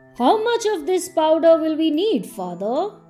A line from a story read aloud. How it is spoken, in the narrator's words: asked Thingy excitedly